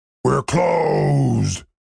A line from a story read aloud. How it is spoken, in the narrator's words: bellowed the Minotaur over the sound of a broom sweeping broken glass